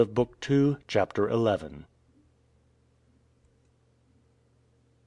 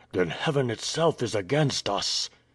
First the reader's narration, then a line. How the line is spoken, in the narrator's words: he exclaimed